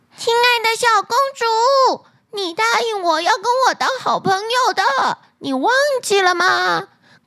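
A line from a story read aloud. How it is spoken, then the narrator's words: Loud call from outside. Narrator (Chinese): 门外的青蛙大声的叫着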